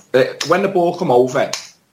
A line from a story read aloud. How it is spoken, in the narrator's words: I shouted as loud as I could possibly shout to Gomez